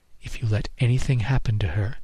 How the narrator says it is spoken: she whispered in my ear

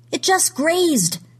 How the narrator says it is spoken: someone shouted

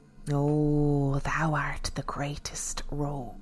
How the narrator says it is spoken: she hissed at Willard

